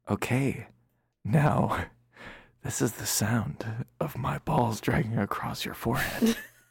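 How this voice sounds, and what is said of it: Imitates an ASMR performer's voice. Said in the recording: “my impression of every ASMR person”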